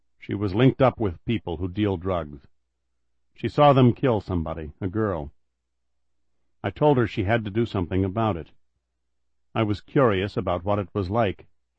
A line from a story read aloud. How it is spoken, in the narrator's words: Kelly said in a flat monotone, still bathing in his guilt